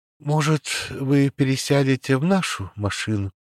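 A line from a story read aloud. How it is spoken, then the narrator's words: Sad voice. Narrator (Russian): печальным голосом сказал Валентине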